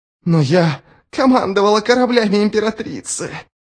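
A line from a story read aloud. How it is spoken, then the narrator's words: Hoarse rasp. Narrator (Russian): прохрипела Шадик Ширрам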